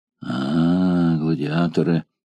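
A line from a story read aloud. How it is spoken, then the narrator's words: Low, startled voice. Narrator (Russian): вполголоса произнес хозяин станции, невольно вздрогнув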